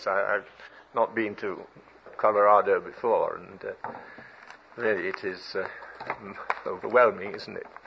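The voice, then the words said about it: British accent. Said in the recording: “my accent ... the Americans and British are two related peoples divided only by a common language”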